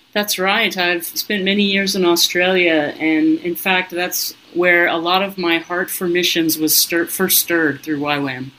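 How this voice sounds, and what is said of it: American accent. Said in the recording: “listeners will be able to hear your American accent”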